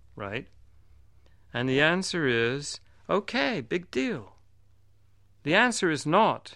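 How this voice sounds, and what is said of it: Usual voice. Nothing is said of it.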